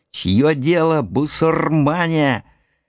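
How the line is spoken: Old man shouting. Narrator (Russian): дед, схватившись за ухо обожженными пальцами, смешно прыгал и кричал

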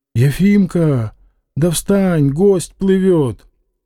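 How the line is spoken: Anxious whispering. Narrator (Russian): на палубе тревожно шептали

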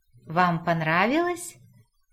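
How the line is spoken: Pleased chuckle. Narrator (Russian): довольно хохотнул американец

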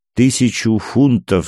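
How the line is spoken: Plain. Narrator (Russian): сказал я

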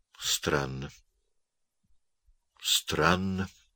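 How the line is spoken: Quiet, thoughtful. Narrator (Russian): сказал Пестель тихо и как будто задумчиво

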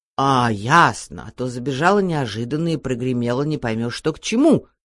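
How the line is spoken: Angry mother. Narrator (Russian): сердито сказала мама

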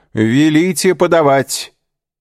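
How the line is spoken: Loud shout. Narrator (Russian): Дебре громко крикнул

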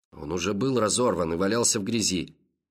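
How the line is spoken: Angry reply. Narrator (Russian): сердито ответил Гребер

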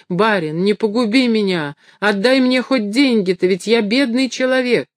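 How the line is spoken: Breathless pleading shout. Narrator (Russian): бежал, спотыкаясь, и задыхающимся голосом кричал

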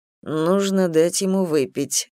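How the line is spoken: Mocking tone. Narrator (Russian): насмешливо сказал Лавалет

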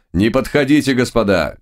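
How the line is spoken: Shout. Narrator (Russian): крикнул император

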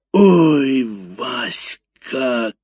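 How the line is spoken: Bellowing like a cow. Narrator (Russian): коровой взревела Валюха

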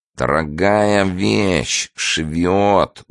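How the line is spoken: Nasal voice. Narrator (Russian): гнусаво сказал

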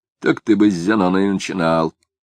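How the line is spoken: Muttered. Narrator (Russian): пробормотал Ерухимович

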